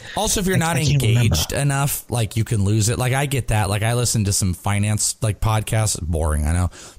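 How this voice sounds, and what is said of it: Sick, deeper voice. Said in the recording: “now that I'm sick my voice is a little bit deeper”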